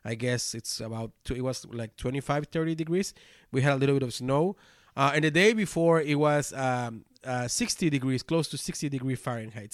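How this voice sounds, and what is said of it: Funny-sounding voice with a cold. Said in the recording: “my cold ... that gives my funny voice ... That's my voice.”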